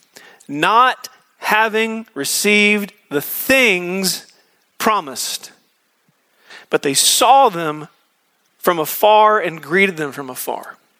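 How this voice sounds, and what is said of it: Slow, deliberate reading. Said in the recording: “reading this slowly”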